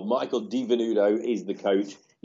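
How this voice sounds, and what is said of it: Dodgy put-on Australian accent. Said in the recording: “a bit of a dodgy Aussie accent”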